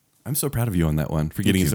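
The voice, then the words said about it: Whispering. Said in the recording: “why am I whispering? ... You're not whispering anymore.”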